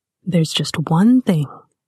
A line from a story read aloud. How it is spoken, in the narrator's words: he said, his voice close to her ear